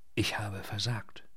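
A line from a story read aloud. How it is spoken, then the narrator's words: Said quietly. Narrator (German): sagte leise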